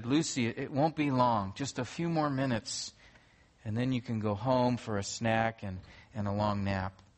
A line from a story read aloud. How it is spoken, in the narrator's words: with great patience, the mom quietly said